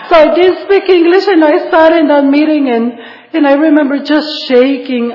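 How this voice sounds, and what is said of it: Non-native English accent. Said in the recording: “I did not speak English, guys. If you don't like my accent or the way I speak”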